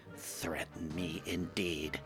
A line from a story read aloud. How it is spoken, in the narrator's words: Gadgett mutter